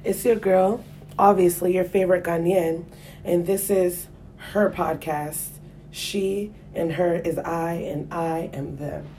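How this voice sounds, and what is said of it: Hoarse, crackly voice. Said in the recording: “I was a little bit under the weather, you know, so my voice is kind of crispity and crunchy”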